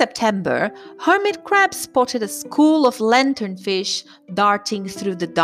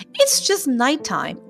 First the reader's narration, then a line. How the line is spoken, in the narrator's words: cried the sea urchin